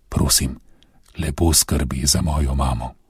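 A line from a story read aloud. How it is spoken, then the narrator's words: Whisper. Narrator (Slovenian): zašepetal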